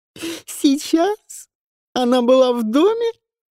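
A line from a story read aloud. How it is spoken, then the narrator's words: Laughing. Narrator (Russian): смеясь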